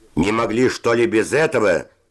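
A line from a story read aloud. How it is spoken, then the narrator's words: Yelling. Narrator (Russian): закричал Севочка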